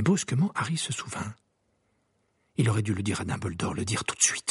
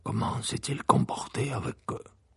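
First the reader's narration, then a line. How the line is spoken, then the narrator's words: Low voice question. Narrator (French): demanda Maugrey à voix basse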